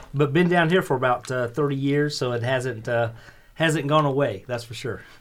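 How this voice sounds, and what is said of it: Southern US twang. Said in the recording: “He's got the accent... southern twang”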